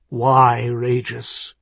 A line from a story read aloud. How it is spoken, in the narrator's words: he asked hoarsely